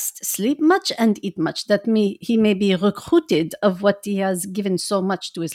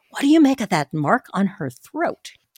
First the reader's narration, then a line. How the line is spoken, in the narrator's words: I asked the professor in a whisper